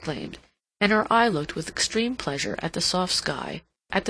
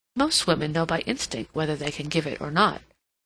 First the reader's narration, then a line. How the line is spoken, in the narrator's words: Lady Otway slipped in quickly, in rather a low voice, as if she wanted to get this said while her sister-in-law's attention was diverted